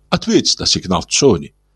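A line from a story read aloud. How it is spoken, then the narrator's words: Soft request. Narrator (Russian): мягко попросил Улин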